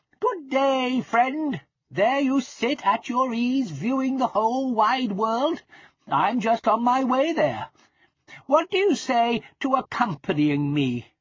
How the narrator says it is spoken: greeting him cheerfully, said

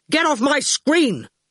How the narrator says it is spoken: he shouted

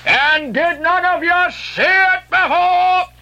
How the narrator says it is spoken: cried Ahab, hailing the perched men all around him

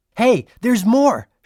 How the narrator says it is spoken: shouted Julian

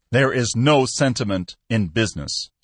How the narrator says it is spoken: replied angrily

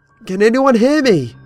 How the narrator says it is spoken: screamed

